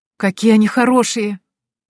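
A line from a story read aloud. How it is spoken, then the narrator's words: Delighted exclamation. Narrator (Russian): воскликнула я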